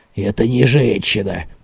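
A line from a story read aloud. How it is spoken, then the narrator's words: Muttered. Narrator (Russian): пробормотал Боманс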